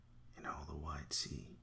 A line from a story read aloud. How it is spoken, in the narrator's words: he murmured